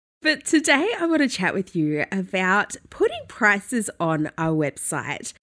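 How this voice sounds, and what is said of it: Nasal, congested voice. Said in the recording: “I sound a little bit nasally. I have a bit of a cold ... sounding a little bit snotty”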